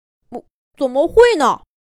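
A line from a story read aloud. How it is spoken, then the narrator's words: Hurried, loud. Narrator (Chinese): 果果赶紧大声说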